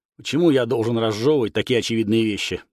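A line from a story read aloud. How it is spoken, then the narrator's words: Grumbling. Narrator (Russian): проворчал я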